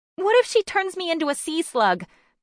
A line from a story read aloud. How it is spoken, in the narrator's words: Bryn blurted